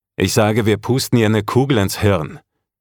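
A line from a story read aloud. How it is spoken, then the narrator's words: Barked. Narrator (German): bellte jemand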